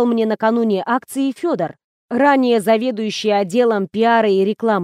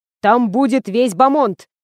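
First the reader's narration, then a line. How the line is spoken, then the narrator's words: Barked. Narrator (Russian): рявкнул Федор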